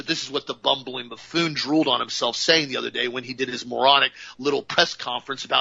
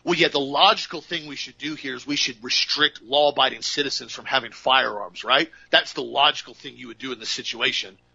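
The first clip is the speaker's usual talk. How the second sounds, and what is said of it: Sarcastic tone. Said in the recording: “I'm being sarcastic”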